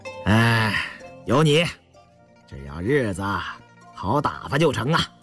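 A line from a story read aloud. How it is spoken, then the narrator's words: Laughing. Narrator (Chinese): 胤祥笑了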